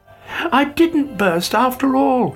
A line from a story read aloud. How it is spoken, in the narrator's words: he cried delightedly